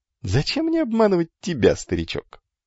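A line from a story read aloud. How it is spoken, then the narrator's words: Beggar laughing. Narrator (Russian): рассмеялся нищий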